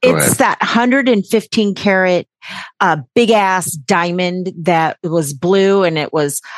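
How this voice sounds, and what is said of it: Usual voice. Nothing is said of it.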